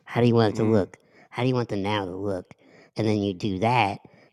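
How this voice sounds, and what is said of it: Put-on sexy voice. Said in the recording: “Why'd you put your sexy voice on? ... I told you about putting your sexy voice on.”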